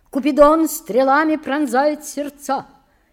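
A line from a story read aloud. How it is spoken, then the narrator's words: Shouting. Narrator (Russian): крикнул он Петру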